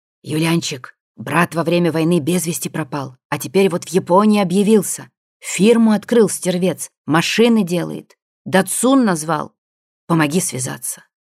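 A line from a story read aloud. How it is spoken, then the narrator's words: Tipsy confidential whisper. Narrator (Russian): после третьей рюмки доверительно шептал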